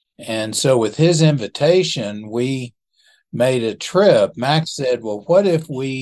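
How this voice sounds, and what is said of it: Usual voice. Nothing is said of it.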